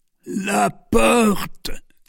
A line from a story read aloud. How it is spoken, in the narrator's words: said the Duke in a dying voice